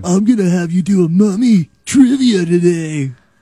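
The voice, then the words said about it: Really high Keanu Reeves impression. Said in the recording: “do an impression of Ryan, it's usually just Keanu showing up... A really high Keanu Reeves... A Keanu from... Bill and Ted”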